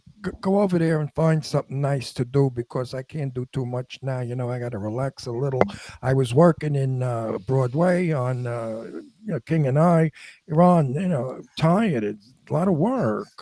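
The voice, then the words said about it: Brooklyn Queens accent, imitates another person's voice. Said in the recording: “he used to sound like sort of like this ... that's really well done. That is perfect. ... That's how he spoke because that's how I spoke also. I have a Brooklyn Astoria accent ... So I have a Brooklyn Queens accent”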